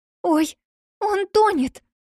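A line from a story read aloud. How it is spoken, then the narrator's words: Frightened cry. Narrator (Russian): Испуганно вскрикнула Эмили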